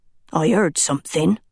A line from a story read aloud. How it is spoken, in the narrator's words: muttered darkly